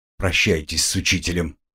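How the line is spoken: Stern command. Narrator (Russian): строго велел магистр

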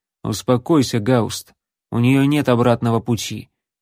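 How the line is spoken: Cold remark. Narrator (Russian): холодно заметил второй защитник врат

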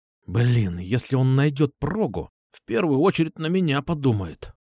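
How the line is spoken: Angry whisper. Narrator (Russian): зло прошептал Дэн

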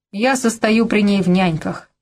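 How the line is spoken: Grumbling mutter. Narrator (Russian): пробурчал он

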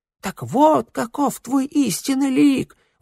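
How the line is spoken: Young man exclaiming. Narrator (Russian): воскликнул юноша

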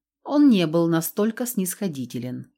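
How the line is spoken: Dry. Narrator (Russian): сухо произнес Лаша Ваир

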